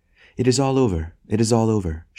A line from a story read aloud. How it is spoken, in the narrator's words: she cried